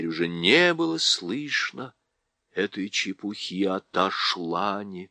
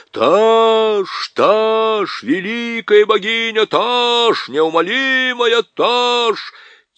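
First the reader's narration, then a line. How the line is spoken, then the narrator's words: Crowd shouting. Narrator (Russian): все тархистанцы закричали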